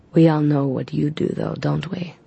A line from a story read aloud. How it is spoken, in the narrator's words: the vampire accused Aiden in his silky voice